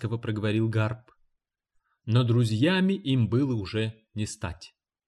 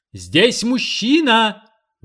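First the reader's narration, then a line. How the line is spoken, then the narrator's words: Sudden shout. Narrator (Russian): вдруг закричала Бейнбридж, взорвав горестную тишину актового зала школы медсестер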